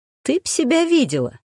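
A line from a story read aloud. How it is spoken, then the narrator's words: Laughing. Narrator (Russian): Настя рассмеялась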